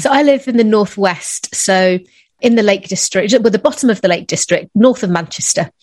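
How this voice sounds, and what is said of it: English accent. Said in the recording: “your beautiful accent. I love the English accent.”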